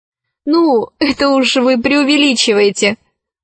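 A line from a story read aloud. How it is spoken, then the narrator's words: Laughing. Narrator (Russian): засмеялась Алиса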